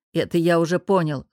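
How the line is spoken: Wry grunt. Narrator (Russian): хмыкнул Артем Станиславович

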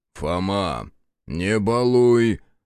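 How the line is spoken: Stern call. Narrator (Russian): строго окрикнул Захар

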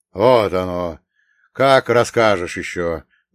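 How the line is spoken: Surprised snort. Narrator (Russian): удивленно хмыкнул Поздей

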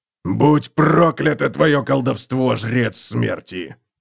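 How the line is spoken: Angry growl. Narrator (Russian): прорычал он

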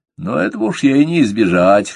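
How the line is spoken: With a snort. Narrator (Russian): хмыкнул

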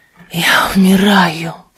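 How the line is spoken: Whisper. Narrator (Russian): прошептал он

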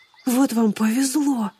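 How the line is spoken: Envious sigh. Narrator (Russian): Завистливо вздохнул Боб

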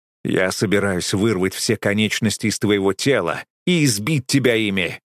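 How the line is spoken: Growled. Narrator (Russian): прорычал

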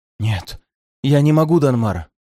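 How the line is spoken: Frightened reply. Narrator (Russian): испуганно отозвался призрак южанина

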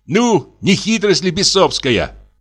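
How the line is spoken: Exclamation. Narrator (Russian): воскликнул он

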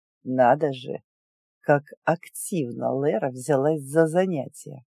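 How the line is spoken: Through gritted teeth. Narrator (Russian): процедил Людвиг

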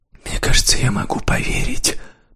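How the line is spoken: Breathy secretive whisper. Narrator (Russian): прошептала, выдыхая слова, как тщательно охраняемую тайну

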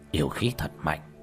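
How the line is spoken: Old Taoist's mutter. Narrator (Vietnamese): Lão đạo sĩ lẩm bẩm

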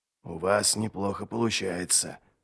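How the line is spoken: Whisper in ear. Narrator (Russian): шепнул дядя Ярви на ухо

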